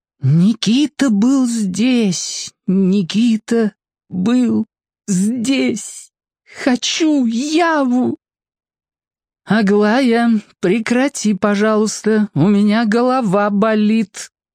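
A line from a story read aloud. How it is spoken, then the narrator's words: Steely request. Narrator (Russian): железным голосом попросила Аделина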